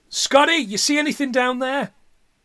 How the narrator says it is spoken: Ash shouts after him

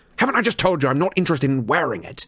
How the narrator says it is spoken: Harry said fiercely

